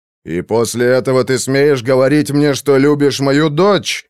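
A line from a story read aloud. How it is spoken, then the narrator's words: Enraged roar. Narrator (Russian): побагровев, взревел Руго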